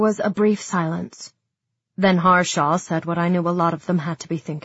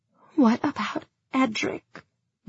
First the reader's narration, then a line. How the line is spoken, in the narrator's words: Nadia asked, her voice hoarse